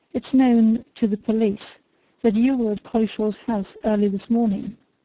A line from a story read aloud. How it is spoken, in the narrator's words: said Bryce